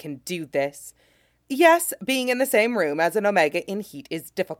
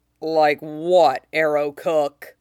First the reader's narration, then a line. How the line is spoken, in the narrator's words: Zoro growls